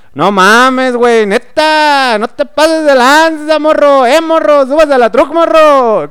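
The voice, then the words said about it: Put-on northern Mexican accent. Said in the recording (Spanish): “los acentos de, los norteños o cuando hablan medios fresas así”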